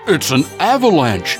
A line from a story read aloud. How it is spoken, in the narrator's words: cried Toad